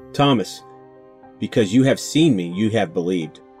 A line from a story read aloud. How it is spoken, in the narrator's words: Jesus said